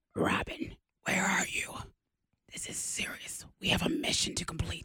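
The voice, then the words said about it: Raspy whispered Batman voice. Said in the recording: “Why are you whispering? ... Batman's whisper. ... There's the Cookie Monster. ... He needs a lozenge.”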